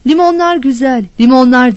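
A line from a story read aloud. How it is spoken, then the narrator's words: Vendor shouting. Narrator (Turkish): diye bağırıyordu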